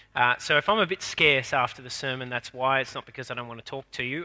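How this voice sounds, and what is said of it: Congested voice from a cold. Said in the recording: “I have a cold. ... bear with me if I'm a bit coughy”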